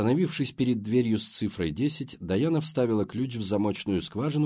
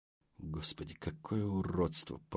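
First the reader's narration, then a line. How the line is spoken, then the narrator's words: Muttered. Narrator (Russian): пробормотала Келли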